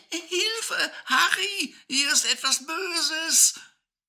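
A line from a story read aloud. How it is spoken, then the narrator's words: Screaming with full force. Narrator (German): schrie sie aus Leibeskräften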